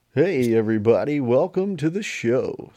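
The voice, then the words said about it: Exaggerated cartoonish radio-host voice. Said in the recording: “cartoon voice ... That's my radio voice.”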